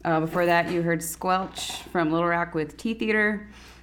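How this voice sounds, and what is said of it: Radio announcer voice. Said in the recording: “That's my radio voice.”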